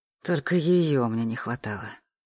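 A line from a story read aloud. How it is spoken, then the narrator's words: Groaned inwardly. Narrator (Russian): простонал Олег про себя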